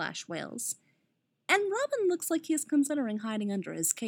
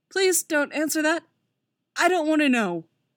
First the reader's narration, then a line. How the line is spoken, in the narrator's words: Robin groans